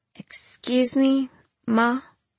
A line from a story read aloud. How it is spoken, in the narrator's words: I said timidly